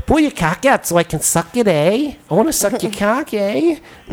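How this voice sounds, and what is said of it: Put-on Minnesota northern accent. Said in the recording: “like one of those, like, Minnesota northern accents”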